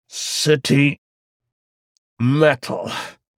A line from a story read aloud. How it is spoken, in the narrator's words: he grunted, the tendons visible on his neck as he continued to strain